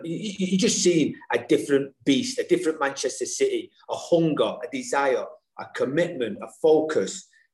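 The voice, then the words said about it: Strong Mancunian accent. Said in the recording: “your glorious Mancunian accent ... you're a proper Manc”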